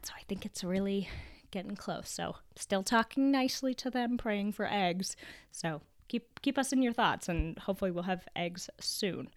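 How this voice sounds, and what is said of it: Raspy, deeper than normal voice. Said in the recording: “my voice is a little bit raspy ... I contracted a little bit of a cold ... my deeper than normal raspy voice”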